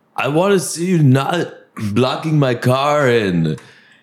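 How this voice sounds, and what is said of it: Put-on Swedish-sounding accent. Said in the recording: “he must be Swedish or something. I love his accent”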